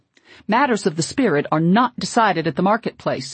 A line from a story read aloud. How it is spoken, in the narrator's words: he shouted sternly